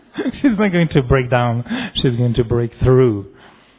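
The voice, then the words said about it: French-accented English. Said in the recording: “French accent”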